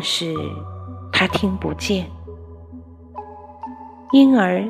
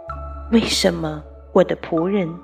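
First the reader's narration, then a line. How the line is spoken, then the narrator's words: Sighing, aggrieved. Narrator (Chinese): 神叹息又委屈地说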